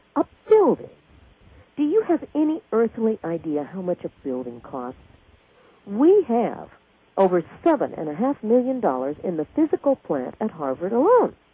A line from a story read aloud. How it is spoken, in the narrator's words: exclaimed